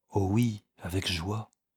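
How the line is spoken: Soft, joyful. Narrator (French): dit-elle doucement

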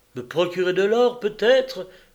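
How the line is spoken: Furious exclamation. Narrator (French): s'écria Hygilde dont les yeux lançaient des éclairs

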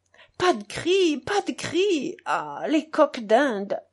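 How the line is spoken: Exclaimed. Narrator (French): s'écria Grushenka

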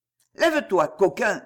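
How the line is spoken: Brusque. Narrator (French): dit-il d'un ton brusque

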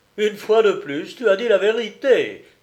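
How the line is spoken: Joyful exclamation. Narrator (French): s'écriait Jacques Moret joyeusement

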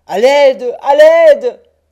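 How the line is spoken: Wretch crying out. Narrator (French): criait le misérable

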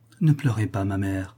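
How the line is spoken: Softly. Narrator (French): dit-elle doucement

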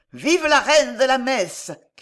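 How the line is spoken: Shouting. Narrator (French): cria quelqu'un

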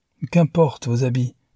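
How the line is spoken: Cheerful. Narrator (French): dit gaiement Newman

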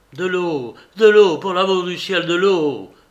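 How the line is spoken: Screaming. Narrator (French): hurlait-il

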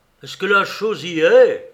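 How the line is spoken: Roar. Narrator (French): rugit Piou

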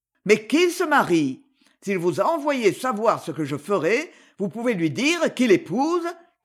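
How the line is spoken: Sneering. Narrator (French): ricana-t-il

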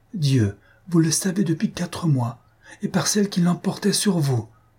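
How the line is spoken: Exclaiming. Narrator (French): elle s'écria

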